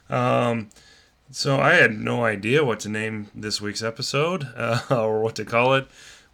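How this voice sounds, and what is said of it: Voice affected by a cold. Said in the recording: “if I sound a little different this week. I'm kind of battling a cold a little bit”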